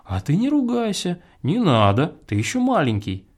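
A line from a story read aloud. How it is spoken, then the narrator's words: Gentle motherly advice. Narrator (Russian): Мать ласково посоветовала ему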